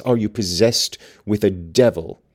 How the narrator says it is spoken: pursued savagely

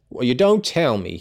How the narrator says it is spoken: he exclaimed interestedly

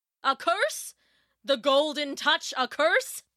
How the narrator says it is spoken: roared Midas

